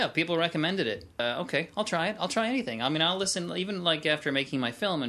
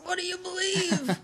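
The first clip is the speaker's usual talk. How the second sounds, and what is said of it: Strained, constipated-sounding voice. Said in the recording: “that constipated voice”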